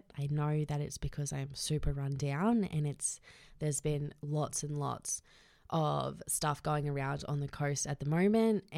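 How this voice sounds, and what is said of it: Voice sounds unwell, a bit off. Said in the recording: “I'm quite unwell today. So if my voice sounds a little bit funny ... I got really, really sick the other day”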